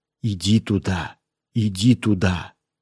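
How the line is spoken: Commanding mysterious whisper. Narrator (Russian): Какой-то таинственный голос властно мне шептал

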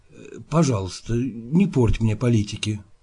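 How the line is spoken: Quiet speech. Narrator (Russian): государь тихо говорит

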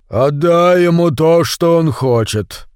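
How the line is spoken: Deep resonant bass. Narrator (Russian): Глубоким басом, который по воскресеньям на утренней службе так выделялся в хоре баптистской церкви, заговорил Стив Мэлори

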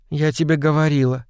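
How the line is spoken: Dejected voice. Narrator (Russian): упавшим голосом сказала Элен

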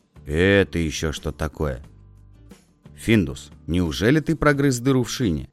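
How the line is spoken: Angry question. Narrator (Russian): сердито спросил Петсон

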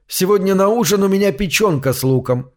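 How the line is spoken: Cheerful. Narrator (Russian): весело сообщил я

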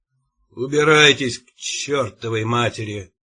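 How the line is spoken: Gruff mutter. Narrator (Russian): буркнул он

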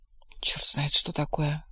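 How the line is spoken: Muttering. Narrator (Russian): пробормотал Кузьмин

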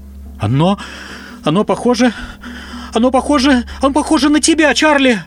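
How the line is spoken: Hoarse shout. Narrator (Russian): Хрипло выкрикнула она

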